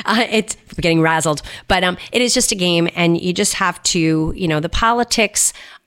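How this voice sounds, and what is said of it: Strained, fading voice. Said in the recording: “I might be losing my voice now.”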